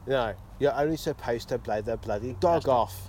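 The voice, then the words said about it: Michael Caine impression, congested voice. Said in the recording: “My Michael Caine impression is much better without a cold.”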